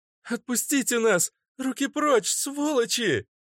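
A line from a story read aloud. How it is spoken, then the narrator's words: Shouting. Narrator (Russian): закричала Вика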